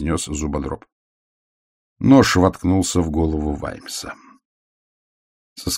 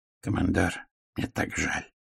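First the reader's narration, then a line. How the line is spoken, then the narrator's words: Quiet. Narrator (Russian): тихо сказал Робкинсон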